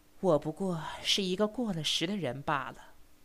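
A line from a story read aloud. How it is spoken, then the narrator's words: Soft sigh. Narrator (Chinese): 流苏微微叹了口气，道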